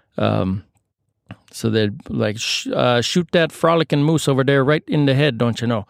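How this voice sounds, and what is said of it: Weak put-on Canadian accent. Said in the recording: “I'm going to be done with the Canadian accents because I don't think it's my strong suit.”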